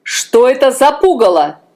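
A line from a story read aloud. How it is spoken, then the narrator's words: Shouting. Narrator (Russian): закричал король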